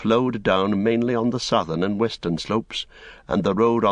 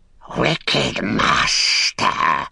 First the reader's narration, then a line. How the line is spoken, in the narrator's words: it hissed